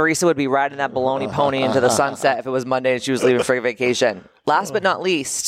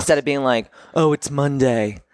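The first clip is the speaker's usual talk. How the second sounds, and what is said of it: Imitates another person's voice. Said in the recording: “my best Teresa Boyd impression”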